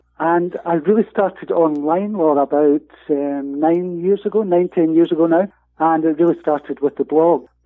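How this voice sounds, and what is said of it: Scottish accent. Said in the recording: “you'll probably be able to tell from the accent, I'm from all the way across in Scotland in the UK”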